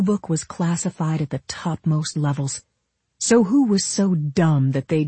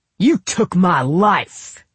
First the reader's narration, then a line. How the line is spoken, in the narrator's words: he shouted, his voice ricocheting through the metal warehouse